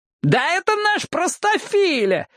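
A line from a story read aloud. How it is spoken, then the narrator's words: Yelling. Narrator (Russian): завопил Джексон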